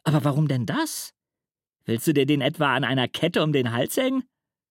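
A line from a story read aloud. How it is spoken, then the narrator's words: Mocking. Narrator (German): spottet Anton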